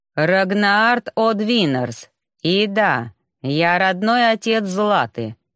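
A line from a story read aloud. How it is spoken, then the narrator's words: Clipped, stern. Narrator (Russian): отчеканил мой строгий родитель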